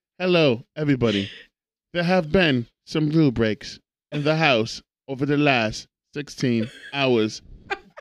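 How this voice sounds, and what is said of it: Put-on English accent. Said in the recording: “Do the English accent.”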